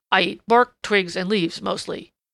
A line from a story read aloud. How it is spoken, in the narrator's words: grunted Prickly Porky ungraciously